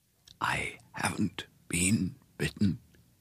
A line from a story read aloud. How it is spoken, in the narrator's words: he whispered